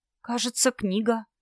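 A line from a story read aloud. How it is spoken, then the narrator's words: Muttered. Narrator (Russian): пробормотала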